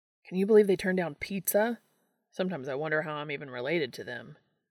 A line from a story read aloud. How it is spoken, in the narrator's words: he started and then sighed